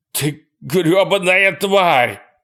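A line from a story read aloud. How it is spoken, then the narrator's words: Shouting in pain and rage. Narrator (Russian): кричал он вне себя от боли и ярости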